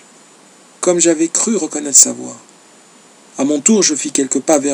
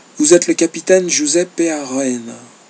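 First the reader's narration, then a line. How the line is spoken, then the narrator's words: Muffled low voice. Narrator (French): me dit-il d'une voix sourde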